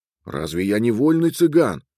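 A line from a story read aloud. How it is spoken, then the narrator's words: Passionate exclamation. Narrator (Russian): горячо воскликнул Петру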